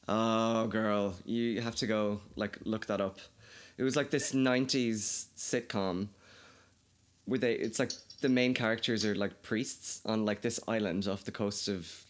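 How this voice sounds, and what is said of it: Mild, flat Irish accent. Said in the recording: “I think my accent's probably changed. I don't think I'm as Irish as I probably was before ... I have such a flat accent ... my dad's from Dublin, so I have less of a Kildare accent than most people would”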